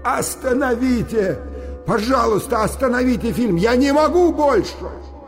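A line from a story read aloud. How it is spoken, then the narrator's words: Shouted. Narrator (Russian): Я закричал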